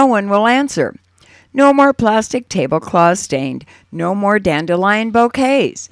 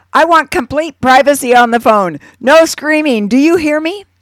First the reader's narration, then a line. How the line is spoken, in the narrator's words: yell